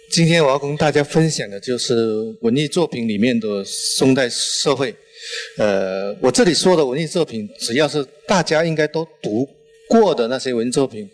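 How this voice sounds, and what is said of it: Mandarin with a thick Chaoshan accent. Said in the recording (Chinese): “我呃是潮汕人，呃，带着浓重的潮汕口音，普通话如果说的不标准”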